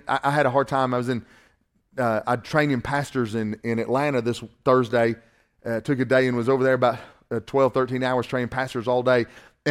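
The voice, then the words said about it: Southern US accent, Northwest Georgia. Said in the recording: “my southern accent ... especially if you're from Northwest Georgia”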